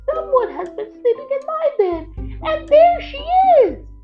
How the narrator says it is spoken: Baby Bear cried in his wee little voice

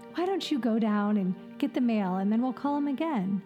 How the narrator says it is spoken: said soothingly

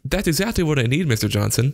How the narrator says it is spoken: Jeremy said brightly

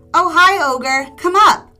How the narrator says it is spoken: Halfman shouting

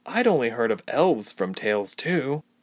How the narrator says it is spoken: Ilse murmured

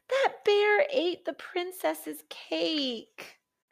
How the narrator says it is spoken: cried Jack

